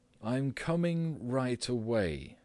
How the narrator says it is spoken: said Gregor, slowly and deliberately

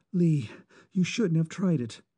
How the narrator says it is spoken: she said anxiously

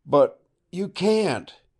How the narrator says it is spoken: cried desperately

